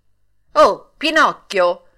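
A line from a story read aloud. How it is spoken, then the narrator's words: Older boy shouting. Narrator (Italian): gridò allora il più grande di quei ragazzi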